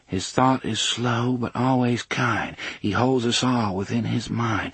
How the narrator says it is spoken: Susanna murmured

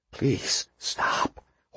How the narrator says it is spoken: Horlocker whispered

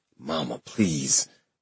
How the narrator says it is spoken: I mumbled, my eyes still closed

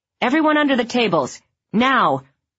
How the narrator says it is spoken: The teacher, who was lunch monitor that week, shouted

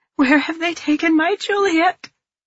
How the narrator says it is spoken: I plead again

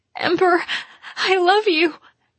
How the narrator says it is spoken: she sobbed

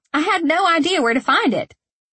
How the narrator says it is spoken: Hannah said brightly

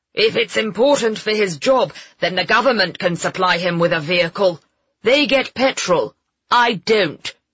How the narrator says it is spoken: he snapped

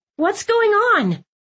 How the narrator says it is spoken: I had to yell to be heard through the din

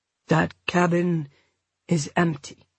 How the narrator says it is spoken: he said gently

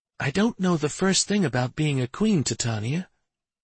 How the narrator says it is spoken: Minerva whispered

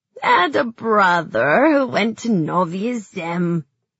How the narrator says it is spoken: the woman said, still chuckling

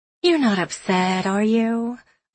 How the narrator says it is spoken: Alexis asks sweetly

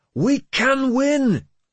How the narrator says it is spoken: Sigtryggr shouted

